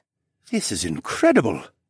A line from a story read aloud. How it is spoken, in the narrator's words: Mateo muttered